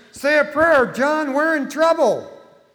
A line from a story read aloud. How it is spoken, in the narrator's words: Terrified, one man shouted to his friend